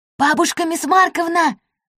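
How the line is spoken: Loud whisper. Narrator (Russian): громко зашептал Бахадыр

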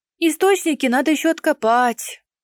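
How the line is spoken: Grumbling, heavy sigh. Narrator (Russian): буркнула и, тяжело вздохнув

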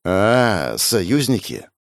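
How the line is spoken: Thoughtful drawl. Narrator (Russian): Задумчиво протянула Арина, будто пробуя слово на вкус

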